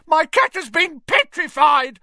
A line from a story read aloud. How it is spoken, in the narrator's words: he shrieked